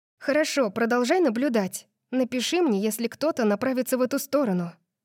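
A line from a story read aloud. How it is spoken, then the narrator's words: Plain. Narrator (Russian): сказала я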